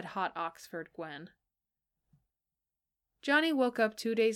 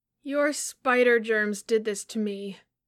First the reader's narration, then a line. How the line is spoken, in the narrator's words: he accused miserably